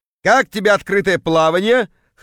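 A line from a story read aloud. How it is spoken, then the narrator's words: Chuckling. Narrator (Russian): хохотнул появившийся Кравчук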